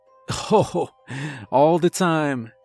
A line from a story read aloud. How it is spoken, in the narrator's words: he laughed